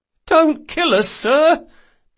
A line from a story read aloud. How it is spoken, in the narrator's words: pleaded the captain of the little vessel, a skinny man of about 30